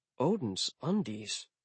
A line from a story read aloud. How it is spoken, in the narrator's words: I muttered